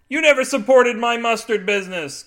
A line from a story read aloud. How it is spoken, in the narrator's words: Carl shouted